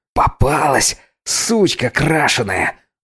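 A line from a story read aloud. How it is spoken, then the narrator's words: Hissed into ear. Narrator (Russian): Зашипел крикун-неудачник мне в ухо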